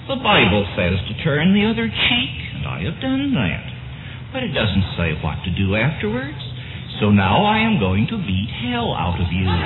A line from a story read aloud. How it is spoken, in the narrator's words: said Cartwright in his mild voice